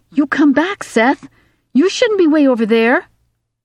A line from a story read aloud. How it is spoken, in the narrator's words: the little girl called out